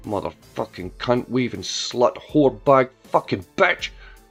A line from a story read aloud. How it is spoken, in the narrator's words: she growled to herself